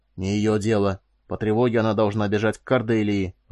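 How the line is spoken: Growl. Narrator (Russian): рыкнул Фаркосиган

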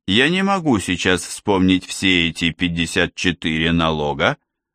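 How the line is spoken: Calm. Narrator (Russian): спокойно отреагировал Лейк

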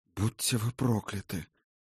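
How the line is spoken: Hissing through teeth. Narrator (Russian): прошипела она сквозь зубы

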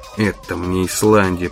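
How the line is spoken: Grumbling. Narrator (Russian): проворчал он

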